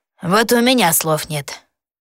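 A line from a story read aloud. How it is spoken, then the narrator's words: Gloomy agreement. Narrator (Russian): мрачно поддакнул Элис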